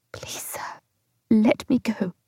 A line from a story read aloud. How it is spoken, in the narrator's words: I whispered